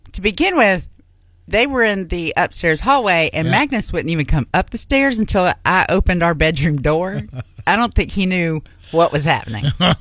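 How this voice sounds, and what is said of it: Thick Southern accent. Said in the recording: “my accent today seems a little bit thicker than normal ... I have my southern roots”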